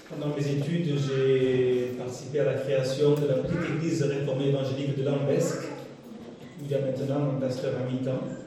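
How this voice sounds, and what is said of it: Southern French Provençal accent. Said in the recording (French): “on me dit que j'ai un accent méridional ... Je suis provençal”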